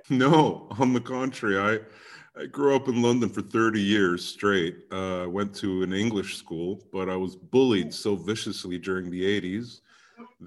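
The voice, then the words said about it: Canadian-sounding English accent. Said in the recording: “why do you sound like a Canadian?”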